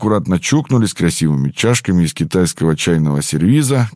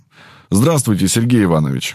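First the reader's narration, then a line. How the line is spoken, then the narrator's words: Brisk, youthful-sounding old voice. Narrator (Russian): Голос профессора, несмотря на его возраст, звучал довольно бодро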